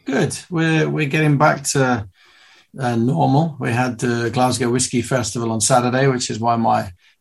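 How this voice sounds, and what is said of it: Worn voice sounding very old. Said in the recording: “my voice sounds like I'm 900 years old”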